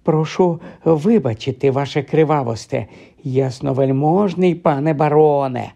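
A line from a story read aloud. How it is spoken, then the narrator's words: Fawning voice. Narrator (Ukrainian): заговорив він улесливим голосом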